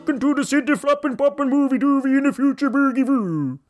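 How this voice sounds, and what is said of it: Mock Swedish accent. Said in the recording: “Swedish people don't actually sound like that”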